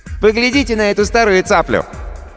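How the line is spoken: Shout mimicking gunshot. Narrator (Russian): изображая выстрел винтовки капитана Джима, крикнул

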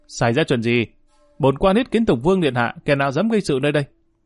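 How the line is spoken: Full-throated shout. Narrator (Vietnamese): Dương Lang không khỏi vận dụng cổ họng hét lên một tiếng

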